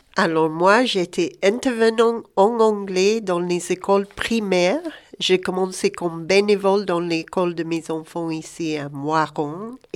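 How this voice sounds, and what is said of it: Speaks French with a noticeable accent. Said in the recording (French): “avec ce bel accent”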